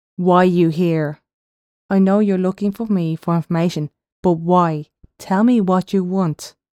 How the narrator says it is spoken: Unsure of what Elentra wanted, feeling weaponless, he then shouted

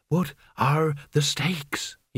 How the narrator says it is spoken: He whispered

